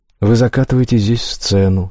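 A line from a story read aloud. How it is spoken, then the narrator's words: Calm. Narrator (Russian): спокойно произносит Шиан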